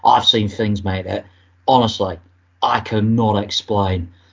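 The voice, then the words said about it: Put-on Cockney accent. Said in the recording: “I do a Cockney accent.”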